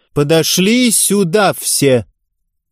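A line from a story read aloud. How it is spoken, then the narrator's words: Loud announcement after breath. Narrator (Russian): Ярцева сделала глубокий вдох и громко произнесла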